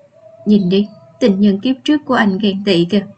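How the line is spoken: Laughing. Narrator (Vietnamese): Cô Vì bật cười nói

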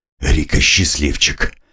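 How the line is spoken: Muttering. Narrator (Russian): пробормотал я

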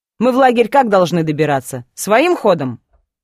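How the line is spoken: Snorting. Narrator (Russian): Кир фыркнул

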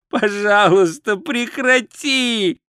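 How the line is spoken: Moaning plea. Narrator (Russian): простонал Ринсвинд

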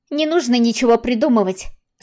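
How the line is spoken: Overly sharp. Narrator (Russian): сказала излишне резко

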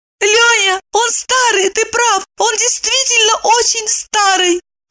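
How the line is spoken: Squeaky voice. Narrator (Russian): пропищала она

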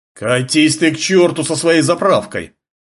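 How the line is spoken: Angry roar. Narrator (Russian): взревел солидный владелец джипа

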